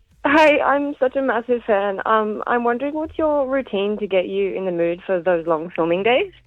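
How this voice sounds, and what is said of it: Shaky, nervous voice. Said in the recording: “if my voice sounds so shaky. I'm really nervous.”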